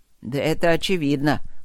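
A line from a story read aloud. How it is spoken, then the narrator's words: Grumble. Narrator (Russian): пробурчал фон Сьедентент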